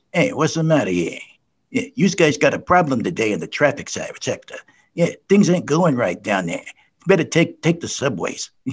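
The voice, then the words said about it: Put-on New York accent. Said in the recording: “a regional dialect or an ethnic dialect gets in the way of proper enunciation ... go to New York City, tune in the local broadcast, say WABC, and the WABC announcer says”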